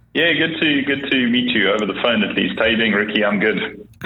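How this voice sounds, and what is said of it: South African accent. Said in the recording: “I detect an accent... I'm originally a South African, so you're going to have to put up with a kind of flat version of English.”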